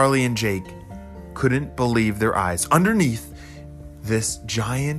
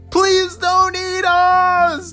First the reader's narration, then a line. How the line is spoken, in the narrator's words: Charlie and Jake both screamed